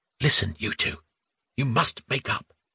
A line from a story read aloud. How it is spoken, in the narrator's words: Gleb, upset by the ill feeling between his friends, said, lowering his voice in the hushed library